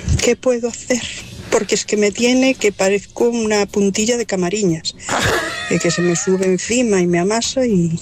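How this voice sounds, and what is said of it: Speaks with a regional accent. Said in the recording (Spanish): “lo primero que me encanta, tu acento”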